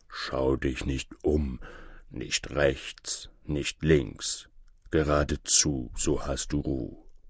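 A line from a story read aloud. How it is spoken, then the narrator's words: Bear's low murmur. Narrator (German): der Bär brummte seinem Bräutchen ins Ohr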